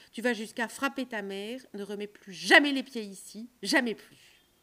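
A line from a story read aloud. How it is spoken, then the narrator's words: Furious yell. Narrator (French): hurla celui-ci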